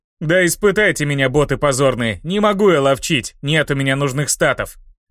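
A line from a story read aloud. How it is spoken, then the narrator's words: Shout. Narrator (Russian): Закричал бессмертный по имени Ловкач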